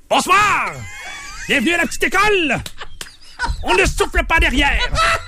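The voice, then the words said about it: Shouted imitation of another person's voice. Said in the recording (French): “Patrice Lécuyer, il faut que je crie un peu... Ton Patrice Lécuyer, là, il est parfait.”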